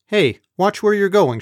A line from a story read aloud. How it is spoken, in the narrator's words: yelled